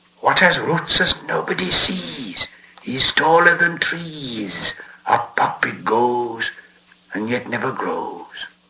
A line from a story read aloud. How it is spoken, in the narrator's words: So Gollum hissed